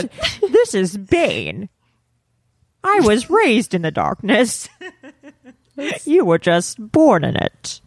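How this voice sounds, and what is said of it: Impression of the movie villain Bane. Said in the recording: “That's a good impression, to be honest. ... That's a good impression. ... It's pretty good. ... Bane.”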